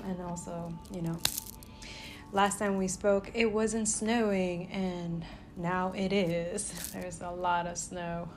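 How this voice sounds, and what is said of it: Rusty, slightly congested voice. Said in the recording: “My voice is a little rusty. Rusky-dusky. ... I'm still a little congested a little bit.”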